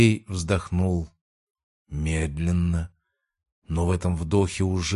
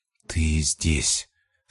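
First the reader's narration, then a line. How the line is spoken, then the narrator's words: Quiet, almost stating. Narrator (Russian): сказал он негромко, почти будто утверждая, а не спрашивая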